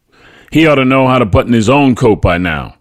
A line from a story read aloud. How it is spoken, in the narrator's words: barked